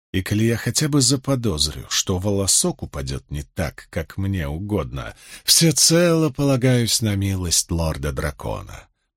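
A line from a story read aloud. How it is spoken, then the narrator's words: Muttered. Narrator (Russian): пробормотал Асмодиан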